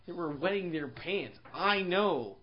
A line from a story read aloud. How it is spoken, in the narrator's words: Marco muttered